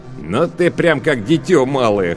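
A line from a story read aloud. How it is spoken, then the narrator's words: Short laugh. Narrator (Russian): хохотнул Лавен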